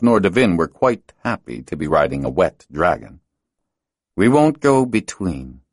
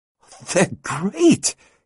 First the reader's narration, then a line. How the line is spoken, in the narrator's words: he exclaimed